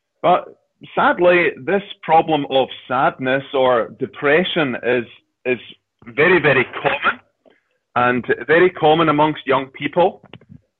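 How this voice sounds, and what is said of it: Unusual non-American accent, speaking slowly. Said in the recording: “I'll talk a bit slowly to begin with until you get used to hearing this unusual accent.”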